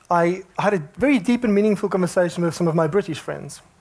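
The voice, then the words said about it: Faint flat South African accent. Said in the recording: “this non-existent flat accent ... it's from South Africa”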